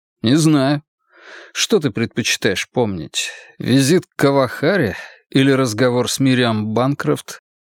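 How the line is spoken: Sad wry smile. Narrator (Russian): Он грустно усмехнулся

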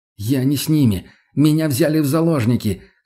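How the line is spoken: Choked, unvoiced shout. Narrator (Russian): хотел было закричать, но язык прилип к гортани

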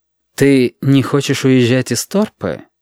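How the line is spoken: Insinuating question. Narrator (Russian): вкрадчиво спросил Валентин

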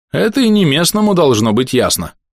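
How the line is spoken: Snorting. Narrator (Russian): хмыкнул Сэм

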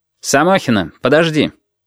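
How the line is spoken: Sharp. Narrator (Russian): резко сказал Портнов

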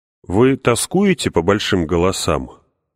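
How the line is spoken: Plain. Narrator (Russian): спросил я

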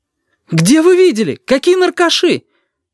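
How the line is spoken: Shouting out. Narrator (Russian): выкрикнула Сашка

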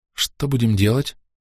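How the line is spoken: Tense question. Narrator (Russian): спросила Дрика напряженным голосом

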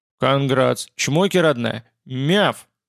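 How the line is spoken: Ecstatic roar. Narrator (Russian): В полном восторге взревел я, как мне показалось, вполне по-столичному

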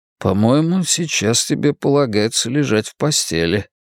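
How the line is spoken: Soft. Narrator (Russian): мягко заметил

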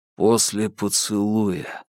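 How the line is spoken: Muttered. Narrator (Russian): пробормотал он

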